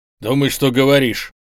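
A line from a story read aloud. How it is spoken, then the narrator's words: Sharp rebuke. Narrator (Russian): резко осадил его Табанов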